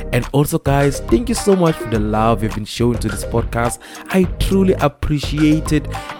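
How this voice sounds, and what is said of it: Sick-sounding voice. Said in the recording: “I have a little bit of a flu, so forgive the way my voice sounds today... I am struggling with a little bit of a flu”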